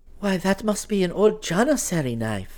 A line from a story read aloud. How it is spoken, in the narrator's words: Nilufer exclaimed